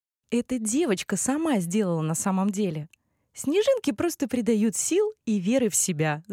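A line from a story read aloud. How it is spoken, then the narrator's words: Laughing. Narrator (Russian): засмеялась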